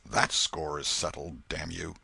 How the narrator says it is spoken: The half-breed muttered

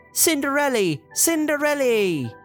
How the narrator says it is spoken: The mice shouted happily

